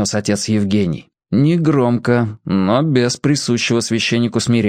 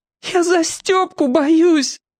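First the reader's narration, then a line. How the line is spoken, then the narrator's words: Sobbing. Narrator (Russian): Федя всхлипнул опять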